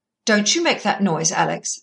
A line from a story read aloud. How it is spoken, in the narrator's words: said nurse sharply